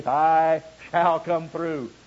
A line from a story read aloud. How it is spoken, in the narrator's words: shouts in vibrant, reassuring faith